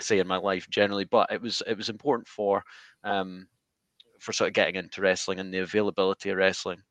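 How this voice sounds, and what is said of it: Scottish accent. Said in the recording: “as you can probably tell from my accent, ... I'm not from the US. I'm from Scotland”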